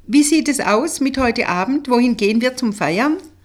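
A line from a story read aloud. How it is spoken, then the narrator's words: Cheerful call. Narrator (German): rief sie gut gelaunt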